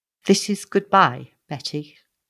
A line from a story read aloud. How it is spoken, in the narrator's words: said very gently